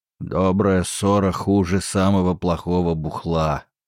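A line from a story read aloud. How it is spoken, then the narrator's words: Grumble. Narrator (Russian): проворчал бычья шея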